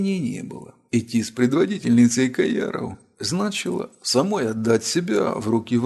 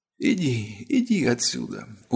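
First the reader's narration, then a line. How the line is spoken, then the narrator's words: Barely audible whisper. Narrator (Russian): уже еле слышно прошептала царица Маб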